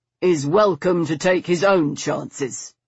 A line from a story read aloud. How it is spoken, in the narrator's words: Stoker said grimly